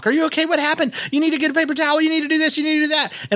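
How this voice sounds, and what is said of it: Worried, fussing imitated voice. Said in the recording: “speaking in the worried wife talk”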